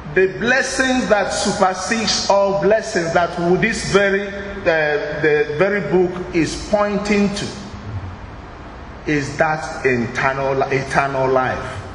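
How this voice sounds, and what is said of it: Speaks English with an accent. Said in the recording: “I don't mean internal. Excuse me for my accent.”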